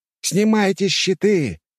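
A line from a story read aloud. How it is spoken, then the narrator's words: Shout. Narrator (Russian): Сильван закричал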